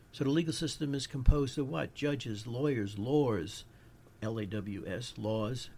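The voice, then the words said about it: New York accent. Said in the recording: “My New York accent comes out sometimes.”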